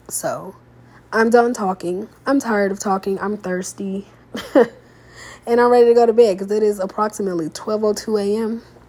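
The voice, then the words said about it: Slightly congested voice. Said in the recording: “I still feel like I sound a little congested because I'm getting over COVID”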